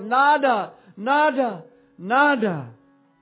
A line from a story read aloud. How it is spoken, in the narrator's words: he called out